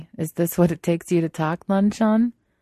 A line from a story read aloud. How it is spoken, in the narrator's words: wants to laugh, say